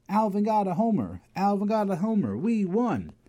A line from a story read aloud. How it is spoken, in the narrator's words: All the kids started yelling